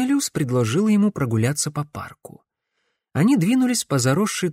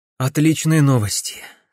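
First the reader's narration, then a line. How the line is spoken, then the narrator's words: Relieved sigh. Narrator (Russian): с облегчением вздохнул Гвинер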